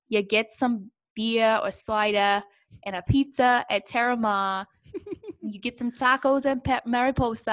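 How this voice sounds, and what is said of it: Put-on Brooklyn accent. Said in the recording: “I don't know why I'm talking in a Brooklyn accent.”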